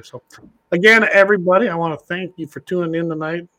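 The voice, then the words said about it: Impaired, struggling speaking voice. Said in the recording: “apologize for my voice ... I just can't talk very good”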